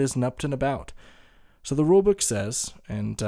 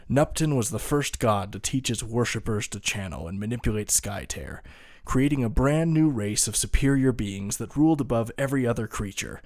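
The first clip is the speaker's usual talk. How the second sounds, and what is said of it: Dramatic storyteller narration voice. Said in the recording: “I'll do my best to read this in a cool storyteller voice”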